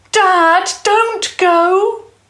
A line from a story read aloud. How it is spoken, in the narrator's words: shouted desperately